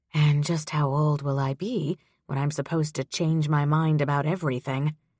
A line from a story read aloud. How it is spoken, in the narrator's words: She muttered to herself